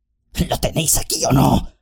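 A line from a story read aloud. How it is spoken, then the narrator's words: Orc's growl. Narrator (Spanish): gruñó el orco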